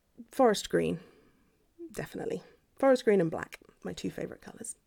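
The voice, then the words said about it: Posh British accent. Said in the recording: “Your accent is, you know, is really hot ... oh, what a lovely posh accent you have”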